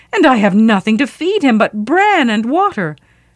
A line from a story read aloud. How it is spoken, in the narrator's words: she wailed